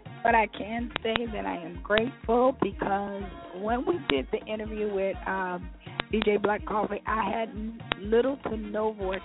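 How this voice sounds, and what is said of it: Hoarse, scratchy voice. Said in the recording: “I'm still really hoarse, so I know I sound terrible ... a scratchy voice”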